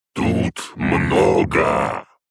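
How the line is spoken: Growled. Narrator (Russian): прорычал

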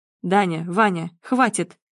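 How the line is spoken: Stern. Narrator (Russian): строго говорит он

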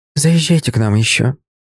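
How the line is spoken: Soft. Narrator (Russian): мягко сказала Светлана Владимировна

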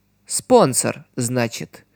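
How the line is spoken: Muttered. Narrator (Russian): пробормотала Нене

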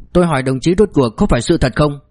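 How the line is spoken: Sudden loud shout. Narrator (Vietnamese): Lục Trình Bác đột nhiên lớn tiếng quát

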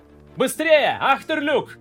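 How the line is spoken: Yelled. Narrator (Russian): заорал Торин

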